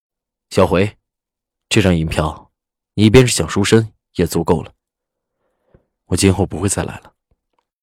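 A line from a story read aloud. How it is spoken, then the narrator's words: Deep, grave voice. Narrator (Chinese): 赵世南沉声道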